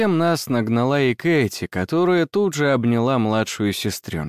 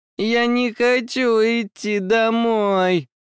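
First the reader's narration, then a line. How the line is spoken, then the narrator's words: Sobbing girl. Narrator (Russian): прорыдала девочка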